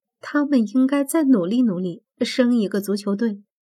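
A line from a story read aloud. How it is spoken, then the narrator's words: Dry-laughing tease. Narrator (Chinese): 我干笑着打趣道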